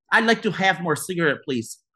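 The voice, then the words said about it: Weak put-on Russian accent. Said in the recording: “let's do Russian... You don't sound Russian at all.”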